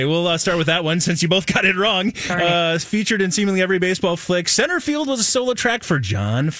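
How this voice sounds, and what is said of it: Usual voice. Nothing is said of it.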